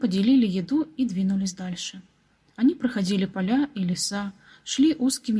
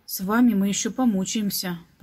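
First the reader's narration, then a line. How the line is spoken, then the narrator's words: Grumbling. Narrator (Russian): проворчал Петр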